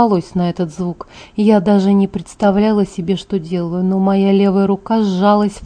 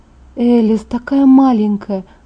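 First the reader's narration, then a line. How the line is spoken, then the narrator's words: Groaning. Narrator (Russian): застонала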